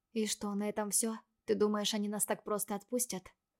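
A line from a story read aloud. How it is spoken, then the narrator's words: Near whisper. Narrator (Russian): почти шепотом уточнила Виктория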